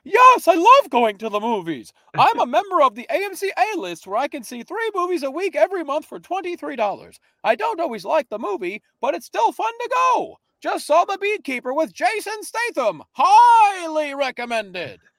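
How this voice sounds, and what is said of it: Imitates another person's voice. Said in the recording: “I don't know why I'm talking like this for Robin ... let me do the Robin voice.”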